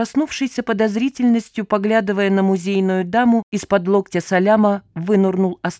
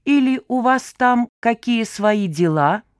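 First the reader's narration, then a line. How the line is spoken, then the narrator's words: Suspicious, through gritted teeth. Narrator (Russian): Явно подозревая недавнюю помощницу в намерении отыскать и перепрятать его бесценную пектораль, процедил бизнесмен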